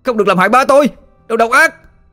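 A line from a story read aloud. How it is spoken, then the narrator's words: Sudden angry yell. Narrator (Vietnamese): Chợt có giọng ai đó hét lên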